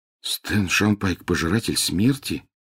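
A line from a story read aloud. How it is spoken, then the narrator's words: Mutter. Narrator (Russian): пробормотал Гарри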